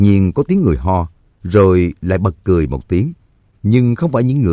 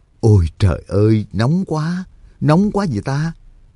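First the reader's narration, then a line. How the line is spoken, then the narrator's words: Low muttering. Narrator (Vietnamese): Trương Lập và Nhạc Dương thấp giọng lầm bầm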